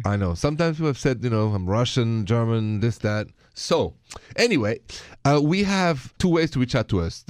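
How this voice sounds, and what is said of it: French accent in English. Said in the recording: “My accent is French, if you haven't noticed.”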